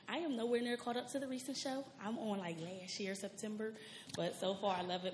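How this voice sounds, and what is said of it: Shaky, nervous voice. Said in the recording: “my voice is shaking. I'm nervous a little bit.”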